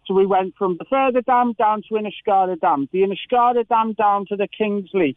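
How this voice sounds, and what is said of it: Local Cork Irish accent. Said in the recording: “obviously with my local accent”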